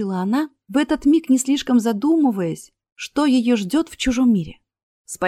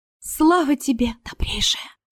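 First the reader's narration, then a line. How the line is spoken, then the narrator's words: Whisper. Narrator (Russian): прошептала Астра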